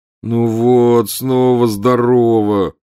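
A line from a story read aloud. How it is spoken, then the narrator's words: Groaning. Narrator (Russian): простонал Гарри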